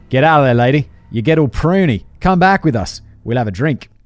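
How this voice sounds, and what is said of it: Bad put-on Australian accent. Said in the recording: “Australian. This is an Australian accent. It's a terrible one. ... I'm so terrible at accents.”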